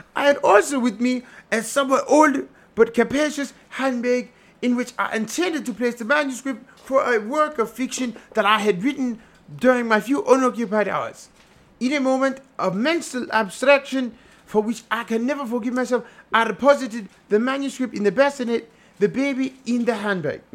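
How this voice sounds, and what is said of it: Put-on theatrical accent. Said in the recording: “That's hard to do with that accent”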